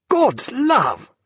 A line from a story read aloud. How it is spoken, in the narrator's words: cried Stephen